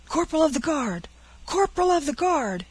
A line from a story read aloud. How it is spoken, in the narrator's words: shouted the sentinel in the passage to the chambers